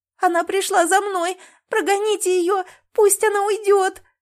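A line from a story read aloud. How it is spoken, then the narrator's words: Sobbing. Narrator (Russian): рыдала Леночка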